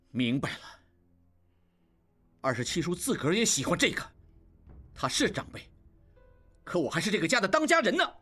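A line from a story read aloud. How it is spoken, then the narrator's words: Angry. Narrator (Chinese): 应季怒道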